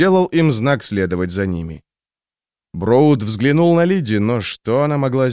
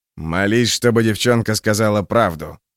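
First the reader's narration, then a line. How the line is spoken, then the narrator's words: Growl into ear. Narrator (Russian): прорычал практик в ухо Броуду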